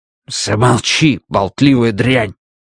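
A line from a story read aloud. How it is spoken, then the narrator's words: Automaton hissing. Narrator (Russian): прошипел автоматей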